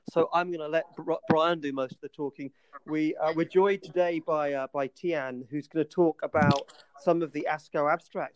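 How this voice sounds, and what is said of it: English accent. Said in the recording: “my stupid English accent, which apparently is almost impossible to interpret”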